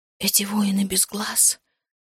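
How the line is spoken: Hoarse, strained. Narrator (Russian): хрипло выдавила я

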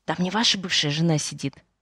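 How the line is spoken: Whispering interpreter. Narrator (Russian): переводчица прошептала

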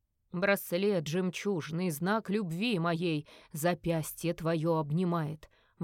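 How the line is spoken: Singing. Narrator (Russian): выводил Скальд

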